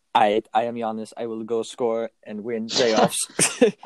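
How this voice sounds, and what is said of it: Imitates another person's accent. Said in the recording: “I like that accent... It was very good. I sounded just like Giannis.”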